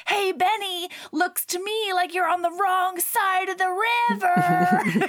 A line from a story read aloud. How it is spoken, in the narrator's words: Rick shouts back